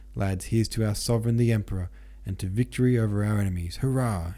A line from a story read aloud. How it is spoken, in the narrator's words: he cried in his sexy old hussar's baritone